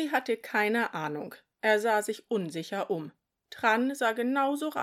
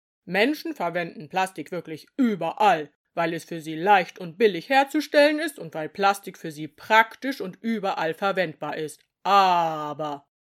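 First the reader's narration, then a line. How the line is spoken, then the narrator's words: Booming voice. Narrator (German): sagte er mit dröhnender Stimme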